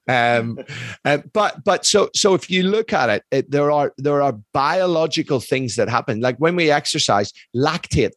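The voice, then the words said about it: Irish accent. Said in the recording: “it's my Irish accent, mate.”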